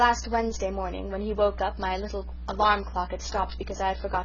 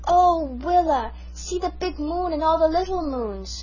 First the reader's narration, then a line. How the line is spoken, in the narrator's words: It was the first time he had ever been out so late at night, and when he saw the stars he exclaimed